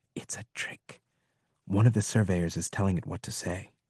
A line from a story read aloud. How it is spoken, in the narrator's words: I heard one of the others whisper